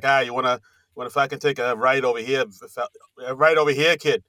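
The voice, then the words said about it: Imitated thick Boston accent. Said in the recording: “thick Boston accent like they have in the movies ... he had the thick Boston accent ... you talk like the movies say you talk”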